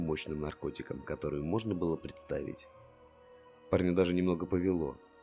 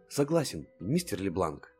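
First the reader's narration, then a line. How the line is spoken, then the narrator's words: Cheerful. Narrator (Russian): Весело цельтовал Чарли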